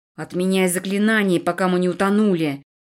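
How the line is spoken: Hiss. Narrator (Russian): прошипел мне Эдви

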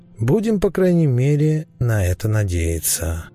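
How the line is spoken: Inner voice, sighing. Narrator (Russian): мысленно вздохнул Ликон

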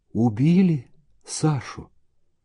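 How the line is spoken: Whisper. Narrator (Russian): Даша прошептала

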